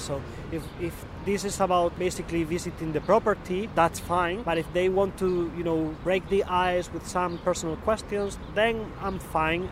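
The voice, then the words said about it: Spanish accent in English. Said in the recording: “I'm from Spain, because I guess I cannot hide that because of my accent”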